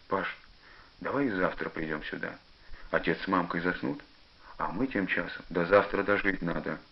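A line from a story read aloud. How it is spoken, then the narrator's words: Stern reply. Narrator (Russian): отвечает Пашка строго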